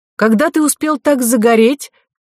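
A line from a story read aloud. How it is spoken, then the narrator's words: Shouting. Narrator (Russian): крикнула Ко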